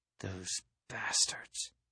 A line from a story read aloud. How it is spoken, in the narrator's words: I said softly